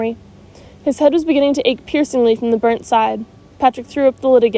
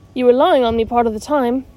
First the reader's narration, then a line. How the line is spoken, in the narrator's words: said Omri